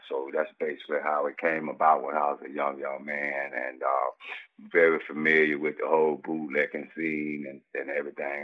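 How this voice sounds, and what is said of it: Speaks with a distinct accent. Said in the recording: “I love your accent.”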